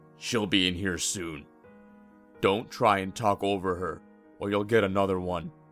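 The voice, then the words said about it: Deep, authoritative character voice. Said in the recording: “a deep voice stated with authority”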